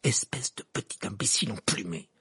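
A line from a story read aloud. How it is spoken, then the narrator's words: Hissing through teeth. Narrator (French): siffla Ron entre ses dents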